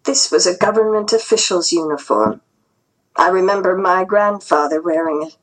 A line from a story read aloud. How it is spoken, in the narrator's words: said softly